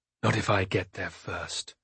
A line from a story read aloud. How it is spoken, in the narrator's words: muttered